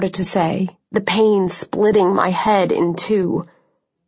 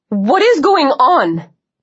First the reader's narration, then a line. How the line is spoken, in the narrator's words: Senator Cruz cried somewhere above us